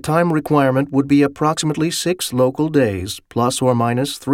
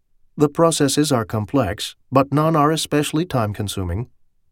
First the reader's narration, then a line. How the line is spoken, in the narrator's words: the AI said calmly